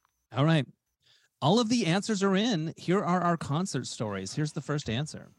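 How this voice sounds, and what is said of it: Usual voice. Nothing is said of it.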